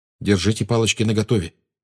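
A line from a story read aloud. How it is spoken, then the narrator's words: Quiet warning. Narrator (Russian): тихо предупредил Гарри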